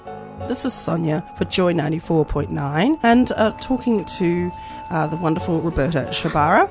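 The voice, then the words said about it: Slightly crackly voice. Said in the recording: “my voice is a bit crackly.”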